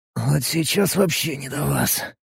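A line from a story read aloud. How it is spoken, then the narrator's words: Strained hoarse rasp. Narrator (Russian): натужно прохрипел я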